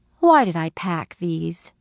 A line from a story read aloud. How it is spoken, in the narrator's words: She asked with a sigh